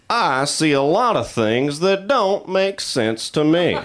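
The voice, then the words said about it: Imitates a Southern US comedian. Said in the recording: “my impression of every Southern comedian”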